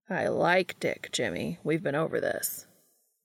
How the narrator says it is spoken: Castiel says dryly

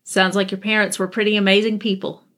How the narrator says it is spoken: Charlie said

